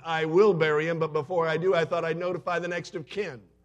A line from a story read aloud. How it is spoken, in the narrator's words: the pastor was very upset by this point, so he shouted into the phone